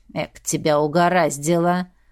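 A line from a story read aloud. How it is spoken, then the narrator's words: Grumbling sister. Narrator (Russian): ворчала сестрица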